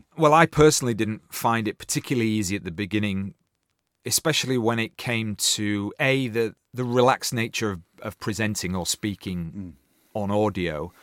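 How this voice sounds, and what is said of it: Strong Yorkshire English accent. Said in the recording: “I feel I've got a very overtly Yorkshire accent. ... it's been tempered a little bit ... So it's clipped a little bit.”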